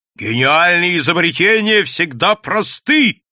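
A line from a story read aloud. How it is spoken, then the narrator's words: Shouting. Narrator (Russian): кричал Бабский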